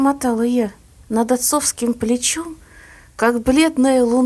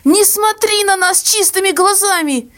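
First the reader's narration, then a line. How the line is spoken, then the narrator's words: Hysterical cry, then sobbing. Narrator (Russian): истерически выкрикнула мама и зарыдала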